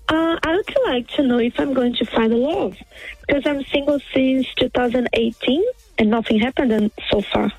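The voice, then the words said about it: Brazilian accent. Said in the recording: “What's that accent? Are you French? ... No, I'm Brazilian.”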